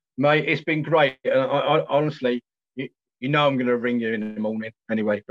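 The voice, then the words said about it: Kent and London English accent. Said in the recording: “my sort of Kent, London accent”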